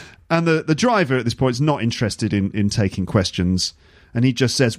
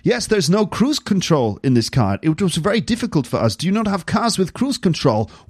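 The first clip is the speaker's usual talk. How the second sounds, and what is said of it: Put-on German accent, Christopher Walken-like. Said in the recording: “This is my German accent. This is my attempt at a German accent ... whenever I do a German accent, it starts to slip into Christopher Walken ... if I keep doing it, it becomes Christopher Walken”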